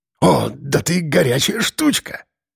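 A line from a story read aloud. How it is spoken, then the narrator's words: Breathless, hoarse, intoxicated laughter. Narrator (Russian): Выдохнул окончательно одурманенный парень, хрипло хохоча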